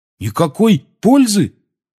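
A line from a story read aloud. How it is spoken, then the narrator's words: Ringing voice question. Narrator (Russian): Звенящим голосом переспросил Рон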